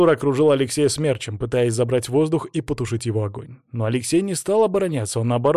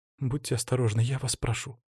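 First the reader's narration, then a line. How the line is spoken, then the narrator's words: Soft whisper. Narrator (Russian): тихо прошептала Злата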